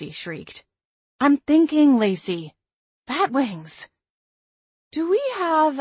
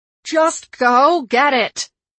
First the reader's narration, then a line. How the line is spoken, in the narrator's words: Lacey screamed